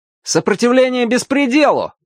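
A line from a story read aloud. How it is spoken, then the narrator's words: Loud reply. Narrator (Russian): также громко ответил рыжий Артур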